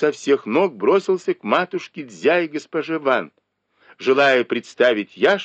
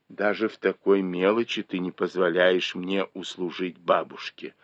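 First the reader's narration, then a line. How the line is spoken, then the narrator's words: Quiet reproach. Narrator (Russian): упрекнул ее тихо Дзя Лянь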